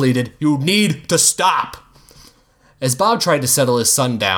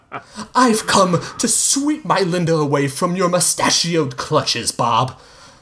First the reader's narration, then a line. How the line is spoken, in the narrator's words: Hugo exclaimed